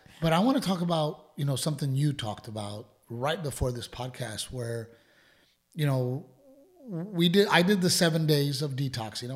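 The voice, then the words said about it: Hoarse, worn-out voice. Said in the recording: “my voice is gone, because I spent the entire weekend literally 18 hours a day using my voice.”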